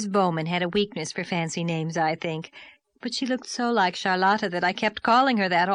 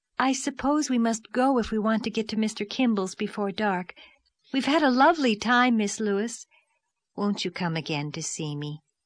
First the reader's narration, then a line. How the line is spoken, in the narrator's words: pleaded Miss Lavendar